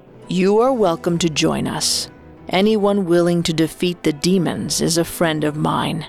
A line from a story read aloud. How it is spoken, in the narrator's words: Momotaro said